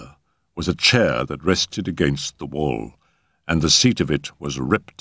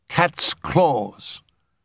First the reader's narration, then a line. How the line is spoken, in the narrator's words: he said, drawing in his breath sharply